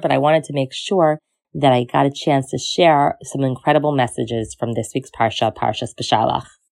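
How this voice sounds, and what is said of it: Hoarse, slightly strained voice. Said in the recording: “hear from my voice, I have a little bit of a sore throat ... when my voice is more clear”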